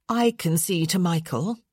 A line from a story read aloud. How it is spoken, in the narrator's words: she said firmly